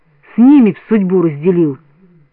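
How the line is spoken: Frantic exclamation. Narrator (Russian): Бориска, не помня себя, воскликнул

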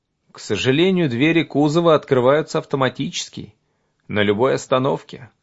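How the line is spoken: Plain. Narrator (Russian): сказал я

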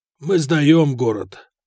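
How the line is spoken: Hoarse commander's reply. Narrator (Russian): хрипло ответил командир гарнизона

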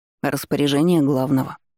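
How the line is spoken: Glum remark. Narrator (Russian): уныло обронил экономист

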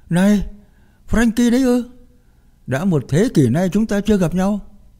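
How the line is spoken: Exclamation. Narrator (Vietnamese): Bobby kêu lên

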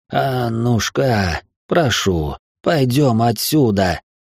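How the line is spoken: Pleading voice. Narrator (Russian): молящим голосом произнес барон

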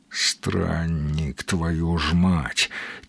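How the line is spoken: Quiet groan. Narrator (Russian): тихо простонал сталкер

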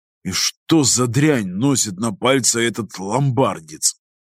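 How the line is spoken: Grumbling. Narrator (Russian): пробурчал Роже

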